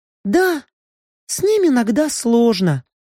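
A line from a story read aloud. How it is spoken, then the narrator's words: Sighing. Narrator (Russian): графиня вздохнула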